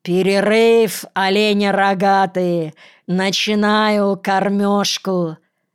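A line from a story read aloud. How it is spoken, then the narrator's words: Loud command. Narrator (Russian): громко скомандовал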